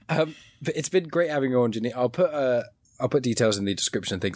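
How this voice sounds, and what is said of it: Hoarse, failing voice. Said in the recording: “I'm somehow losing my voice”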